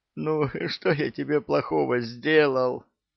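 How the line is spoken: Saint pleading. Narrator (Russian): взмолился святой

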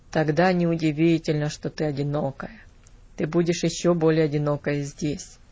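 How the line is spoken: Grumbled. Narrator (Russian): пробурчал

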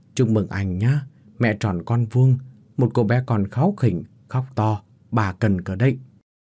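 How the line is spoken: Sigh then smiling. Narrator (Vietnamese): Vị bác sĩ khẽ thở dài rồi nở một nụ cười

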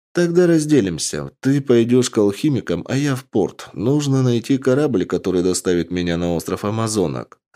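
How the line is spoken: Plain. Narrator (Russian): ответила мне Аретто

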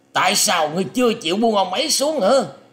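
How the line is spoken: Terrified, harsh loud shout. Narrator (Vietnamese): Vị quan chủ Ngọc Hoàng Hoàng kinh hoàng thất sắc, gằn giọng quát to lên rằng

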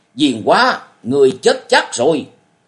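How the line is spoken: Harsh voice. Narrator (Vietnamese): Giọng của y gai gắt nói

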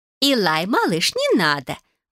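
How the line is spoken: Exclaiming. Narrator (Russian): воскликнула Салика

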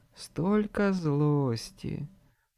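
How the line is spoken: Tender whisper. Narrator (Russian): ласково прошептала она

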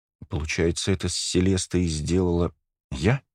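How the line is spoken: Timid. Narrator (Russian): робко произнесла Ника

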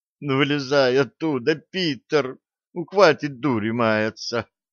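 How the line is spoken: Desperate girl moaning. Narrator (Russian): В отчаянии простонала девушка

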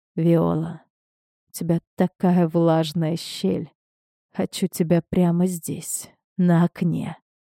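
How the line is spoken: Hoarse voice. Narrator (Russian): Хриплый голос Уманского

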